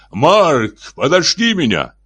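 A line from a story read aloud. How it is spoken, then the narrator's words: Shouting after someone. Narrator (Russian): Шеффилд закричал ему вслед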